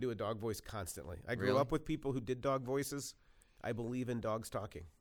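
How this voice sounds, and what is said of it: Usual voice. Nothing is said of it.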